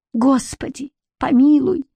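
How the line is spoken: Desperate sob, then shout. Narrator (Russian): всхлипнула баба Лена в последней надежде и вдруг закричала

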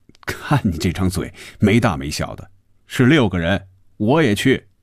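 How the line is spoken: Laughing. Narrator (Chinese): 红军笑着说

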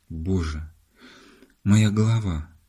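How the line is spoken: Groaned. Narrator (Russian): простонал он

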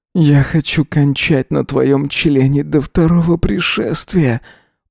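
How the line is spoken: Moaning. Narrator (Russian): простонал он, кусая губы

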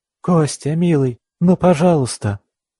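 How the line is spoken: Pleading. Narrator (Russian): взмолилась Аня

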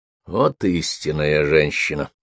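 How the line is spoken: Grumbling man. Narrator (Russian): проворчал Франсуа

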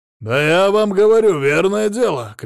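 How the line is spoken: Frantic shouting. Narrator (Russian): кричал он так, будто сам ее и зарезал

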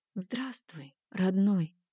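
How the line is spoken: Whisper. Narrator (Russian): прошептала

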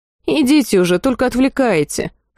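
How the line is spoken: Snort. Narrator (Russian): фыркнула я

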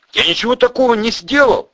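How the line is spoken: Exclaiming. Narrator (Russian): воскликнул Пудик

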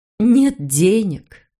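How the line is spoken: Sad conclusion. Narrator (Russian): Роза грустно заключила

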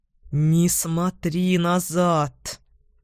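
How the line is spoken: Furious hiss. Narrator (Russian): он яростно прошипел

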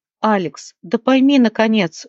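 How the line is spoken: Exclaimed. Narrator (Russian): воскликнула Леона

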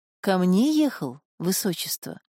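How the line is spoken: Gentle, affectionate question. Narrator (Russian): спросила она ласково

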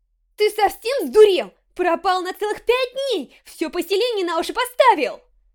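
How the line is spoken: Shouting. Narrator (Russian): Кричала она

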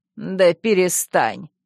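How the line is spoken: Dismissive snort. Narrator (Russian): Яга хмыкнула

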